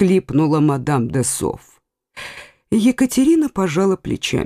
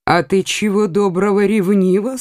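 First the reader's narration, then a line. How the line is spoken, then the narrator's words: Plain. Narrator (Russian): сказала королева-мать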